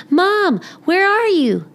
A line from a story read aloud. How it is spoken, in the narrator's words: Amelia Bedelia yelled